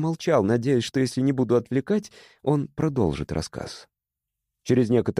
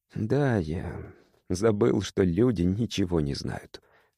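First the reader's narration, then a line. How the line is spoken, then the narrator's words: Quiet. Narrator (Russian): сказал он тихо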